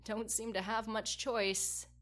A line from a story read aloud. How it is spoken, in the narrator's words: Tristan said with a small laugh